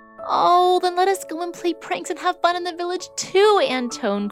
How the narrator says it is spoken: cried Babette

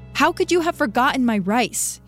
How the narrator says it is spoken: screams

